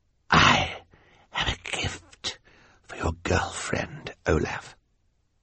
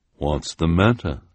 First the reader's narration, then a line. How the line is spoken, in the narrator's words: asked the woman in her deep voice